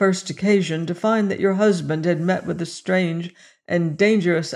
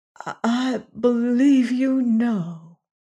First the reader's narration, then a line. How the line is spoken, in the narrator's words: she breathed